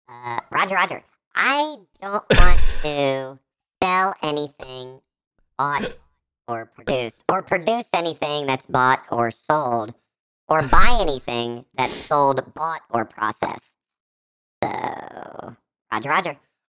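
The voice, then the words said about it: Robotic battle droid voice impression. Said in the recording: “it's John Cusack as a battle droid ... All of my impersonations, by the way, are just Battle Droid.”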